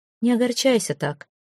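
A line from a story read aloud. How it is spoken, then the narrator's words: Soft. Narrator (Russian): мягко сказал Местина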